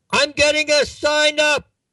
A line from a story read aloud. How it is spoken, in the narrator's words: he yelled to his wife